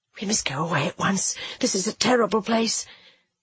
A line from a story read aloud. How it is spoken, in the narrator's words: what I said when I got my breath, and I know my voice came out in a whisper